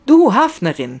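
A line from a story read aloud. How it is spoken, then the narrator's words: Sudden inspired shout. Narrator (German): schreit Anna in plötzlicher Eingebung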